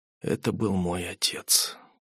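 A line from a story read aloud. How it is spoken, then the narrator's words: Quiet man. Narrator (Russian): тихо ответил мужчина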